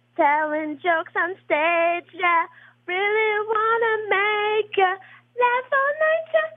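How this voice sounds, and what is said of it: Good sung pop-star voice imitation. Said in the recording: “That was a pretty good Britney Spears impression. ... That was pretty damn good. It's probably better than Britney actually sounds”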